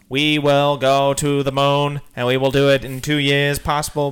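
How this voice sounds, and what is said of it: Impression of Kennedy giving a speech. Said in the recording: “It's the Kennedy guy who's like ... That's a good impression.”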